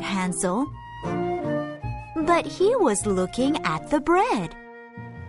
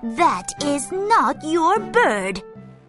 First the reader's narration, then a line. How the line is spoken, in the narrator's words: cried the wife